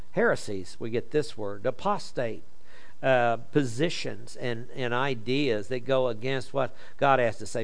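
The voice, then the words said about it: Oklahoma accent. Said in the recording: “My Oklahoma accent won't let me distinguish between sex and sex. See, it sounds the same.”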